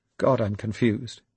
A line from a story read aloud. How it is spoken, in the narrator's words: eventually muttered